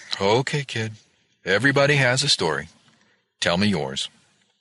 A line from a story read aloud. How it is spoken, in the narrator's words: she sighed and said